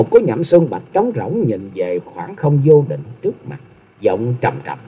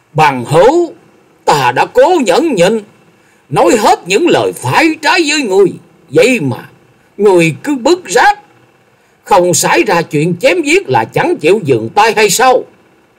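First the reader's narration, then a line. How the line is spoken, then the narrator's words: Furious through clenched teeth. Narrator (Vietnamese): Lòng nhẫn nại của Lâm Tường đã đến giới hạn cuối cùng, y nghiến chặt răng rồi quát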